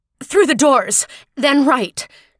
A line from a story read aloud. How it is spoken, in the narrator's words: Toth gasped